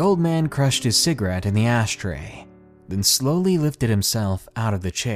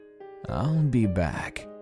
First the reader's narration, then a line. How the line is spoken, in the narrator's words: mumbled